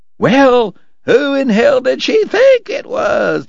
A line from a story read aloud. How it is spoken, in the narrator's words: the cowboys hollered